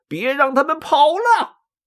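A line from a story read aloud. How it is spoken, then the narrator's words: Shout. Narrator (Chinese): 张绣大喊一声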